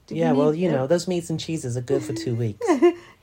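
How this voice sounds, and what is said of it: Poor impression of Angela. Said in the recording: “doing an Angela impression now? ... Your Angela impression is absolutely terrible. ... It's diabolical.”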